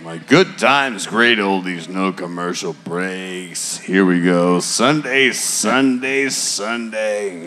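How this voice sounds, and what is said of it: Radio announcer voice. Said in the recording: “my dad's radio voice”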